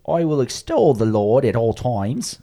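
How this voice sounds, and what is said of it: Poor put-on English accent, Cockney-like. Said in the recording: “I think you have to read it in an English accent. ... That sounds terrible. ... Thanks a lot, Eric Idle. I mean, that sounded like almost Monty Python. ... my English accent's terrible, and often it's like Cockney.”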